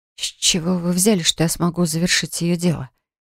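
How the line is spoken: Entranced babbling. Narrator (Russian): Пролепетала завороженно

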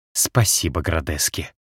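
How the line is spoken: Cat hissing. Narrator (Russian): прошипел кот

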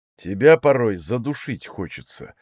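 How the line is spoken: Grumbling over loud noise. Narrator (Russian): услышал я сквозь грохот шагающих големов его ворчание

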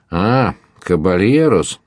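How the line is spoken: Exclamation. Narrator (Russian): воскликнул он

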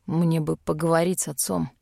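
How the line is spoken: Quiet. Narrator (Russian): тихо сказал мой любимый

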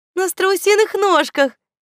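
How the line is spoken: Giggling. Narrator (Russian): хихикнула Светка

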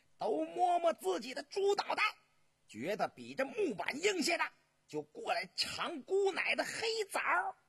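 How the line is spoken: Smug loud shout. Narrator (Chinese): 莺莺得意的大声的喊道

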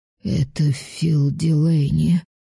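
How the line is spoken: Sheriff, hoarse rasp. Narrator (Russian): прохрипел шериф

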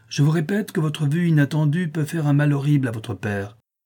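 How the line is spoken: Exclaimed. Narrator (French): s'écria-t-elle

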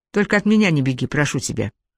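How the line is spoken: Carefree sigh. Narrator (Russian): беспечно вздохнул ее собеседник

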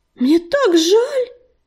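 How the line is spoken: Sympathetic exclamation. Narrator (Russian): воскликнула Листвичка, с сочувствием

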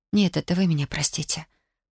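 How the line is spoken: Whispered. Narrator (Russian): прошептала

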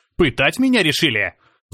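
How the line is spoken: Frenzied shout. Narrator (Russian): закричал, словно в меня вселился бес

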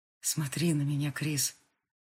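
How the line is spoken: Hoarse plea. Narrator (Russian): хрипло попросил Габриэль

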